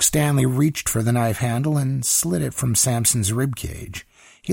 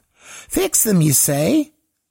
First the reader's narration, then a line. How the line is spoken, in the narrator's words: He laughed